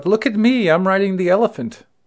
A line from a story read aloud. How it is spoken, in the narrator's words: shout